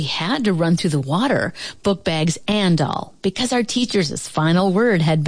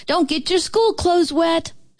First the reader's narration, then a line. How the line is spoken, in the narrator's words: hollered